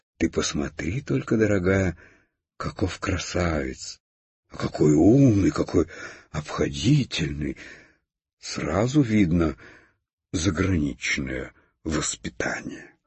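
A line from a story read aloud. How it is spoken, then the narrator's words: Delighted whisper. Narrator (Russian): Хрустальная ваза в восторге шептала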